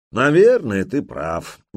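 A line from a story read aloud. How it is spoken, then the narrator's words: Conceding with a sigh. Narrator (Russian): не стал спорить Торстейн и вздохнул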